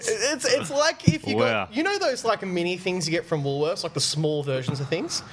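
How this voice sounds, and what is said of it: Thick Australian accent. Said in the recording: “I have a bit of an accent. It's thick. ... it's called fucking Australian.”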